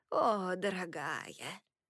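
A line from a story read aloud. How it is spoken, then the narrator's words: Sighing, tearful woman. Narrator (Russian): Она вздохнула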